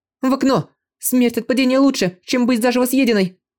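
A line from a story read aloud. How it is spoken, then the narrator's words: Resolute shout. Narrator (Russian): решительно крикнула она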